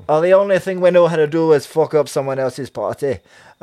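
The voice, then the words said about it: Put-on Scottish accent. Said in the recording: “Sorry about the Scottish accent, everybody. I apologize.”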